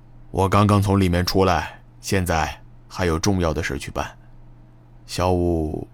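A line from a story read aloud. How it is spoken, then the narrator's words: Uneasy, low voice. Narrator (Chinese): 西山王脸色不安，声音低沉的说道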